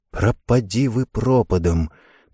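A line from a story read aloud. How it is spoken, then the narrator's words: Whispered. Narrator (Russian): прошептала Карен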